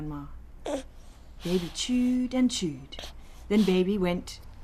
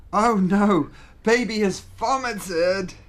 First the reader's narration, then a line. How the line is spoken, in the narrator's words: cried Big Brother